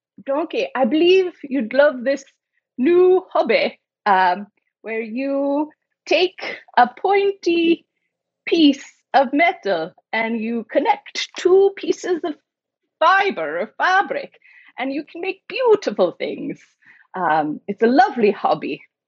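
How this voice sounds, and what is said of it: Poor put-on Scottish accent. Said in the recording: “I can do a Scottish accent when I can't, but I tried. Okay, I'm really bad at accents.”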